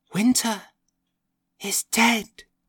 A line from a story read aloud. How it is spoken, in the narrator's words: I whispered to her neighbour